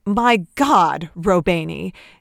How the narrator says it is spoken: Nate snapped, guilt roaring like thunder in his ears

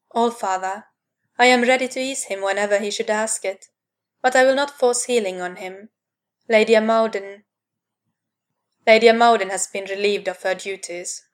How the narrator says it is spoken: Odin said flatly

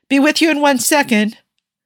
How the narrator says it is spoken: his voice call out from the back

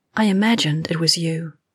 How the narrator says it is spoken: she murmured, her lips brushing the shell of Miranda's ear

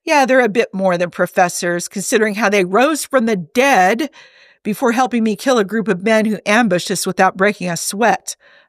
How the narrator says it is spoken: Hob exclaimed, throwing his hands up in exasperation

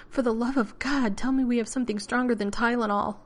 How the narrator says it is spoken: panted

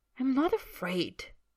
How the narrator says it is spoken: Draco says hotly

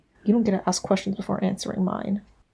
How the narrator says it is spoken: George blinks, then mutters petulantly

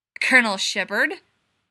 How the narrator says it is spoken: Gibbs snarled

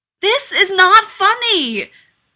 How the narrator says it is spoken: Rodney yelled

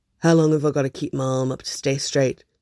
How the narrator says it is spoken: he asks, in that suspicious tone he gets when he thinks he might be being made fun of

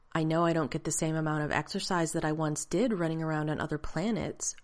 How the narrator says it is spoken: Rodney said in the clear, even tone he'd been schooled to use

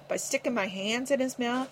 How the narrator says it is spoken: Hank whimpered

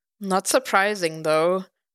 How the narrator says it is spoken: Matt sighed

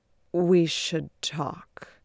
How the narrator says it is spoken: Beard croaks out

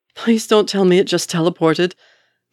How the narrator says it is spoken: gasps Wanda

